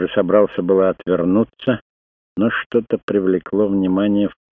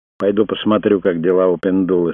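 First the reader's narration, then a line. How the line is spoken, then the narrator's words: Plain. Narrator (Russian): сказал Крейг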